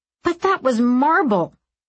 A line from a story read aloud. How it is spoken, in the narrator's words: Aram cried